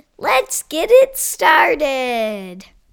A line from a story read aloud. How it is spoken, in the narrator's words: Pizza Man exclaimed